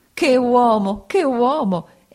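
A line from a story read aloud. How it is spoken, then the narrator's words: Exclaiming. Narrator (Italian): esclamò Peggotty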